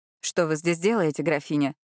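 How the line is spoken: Harsh questioning tone. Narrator (Russian): Довольно жестким тоном спросил он

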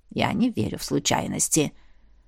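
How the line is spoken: Old woman muttering. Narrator (Russian): пробормотала старуха

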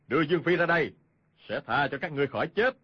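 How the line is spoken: Shout. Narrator (Vietnamese): Hoàng Nhan Hồng Liệt quát lên

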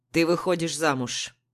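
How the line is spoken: Stern father. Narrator (Russian): строго говорит папа

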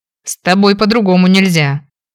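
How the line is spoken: Snort. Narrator (Russian): Фыркнул мужчина

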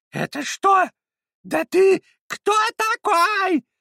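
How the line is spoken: Shrieking. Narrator (Russian): завизжала она

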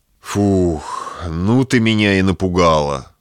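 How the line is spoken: Relieved exhale. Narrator (Russian): выдохнул облегченно Малышев

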